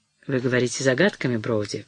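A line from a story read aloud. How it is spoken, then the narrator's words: Cold objection. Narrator (Russian): возразил он холодно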